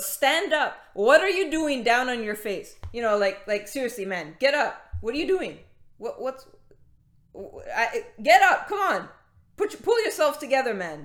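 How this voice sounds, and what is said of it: Acted voice of God, poor imitation. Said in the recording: “my imitation of of that isn't very good”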